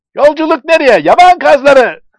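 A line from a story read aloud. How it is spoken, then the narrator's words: Shouting together. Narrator (Turkish): diye bağırıyorlardı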